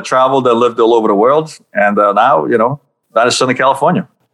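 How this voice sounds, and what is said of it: Slight New York accent. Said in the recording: “do I detect a little bit of a New York accent there? ... I lived many years in New York, so that's where I got my accent from”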